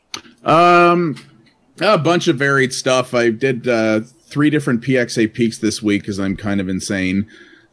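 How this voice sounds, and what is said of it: Tired-sounding voice. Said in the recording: “you sound tired”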